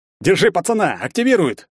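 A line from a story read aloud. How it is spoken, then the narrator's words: Barked, kidnapper. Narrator (Russian): рявкнул похититель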